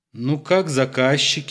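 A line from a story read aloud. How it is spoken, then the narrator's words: Asked laughing. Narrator (Russian): интересовался ночью Колька и смеялся, не притворялся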